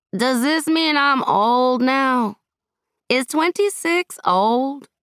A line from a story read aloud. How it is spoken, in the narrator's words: Shawnee placed her head on Josepha's shoulder and slurred